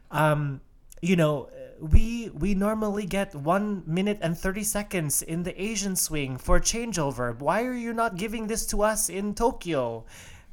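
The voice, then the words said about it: Imitates another person's accent. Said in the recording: “I'm not even going to try to do his accent ... That was my Medvedev, everyone.”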